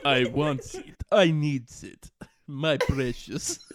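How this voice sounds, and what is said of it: Put-on Dracula-like Russian accent. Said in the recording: “You sound like Dracula ... What was that accent? I haven't practiced a Russian accent ever in my life”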